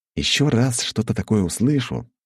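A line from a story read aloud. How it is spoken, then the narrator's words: Calm, unthreatening voice. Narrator (Russian): спокойно, без угрозы в голосе сказал я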